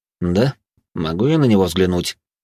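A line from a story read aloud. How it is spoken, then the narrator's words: Calm answer. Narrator (Russian): также спокойно ответил дознаватель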